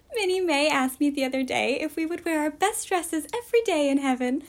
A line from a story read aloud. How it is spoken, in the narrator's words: laughed Diana